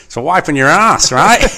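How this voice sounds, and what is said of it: Good put-on Australian accent. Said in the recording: “In an Australian accent. ... That was a good Australian accent. ... I do a pretty good Australian accent. I do a good Paul Hogan anyway.”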